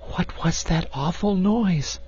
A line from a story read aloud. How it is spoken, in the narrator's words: whispered, shrinking close to him